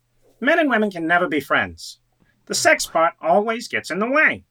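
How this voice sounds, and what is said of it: Billy Crystal impression. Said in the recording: “do a Billy Crystal impression ... my white face Billy Crystal”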